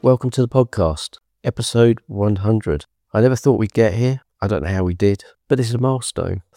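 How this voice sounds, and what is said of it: Voice sounding unwell. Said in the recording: “As you might be able to tell from my voice, I'm not well at the moment”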